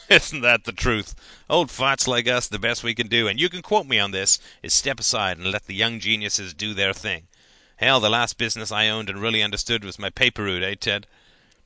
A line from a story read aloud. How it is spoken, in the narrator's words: chuckled